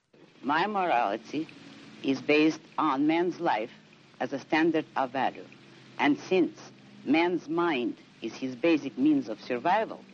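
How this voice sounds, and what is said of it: Russian accent. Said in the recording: “You'll hear her Russian accent.”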